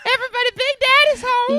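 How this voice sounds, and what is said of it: Big daddy character voice. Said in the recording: “my big daddy voice”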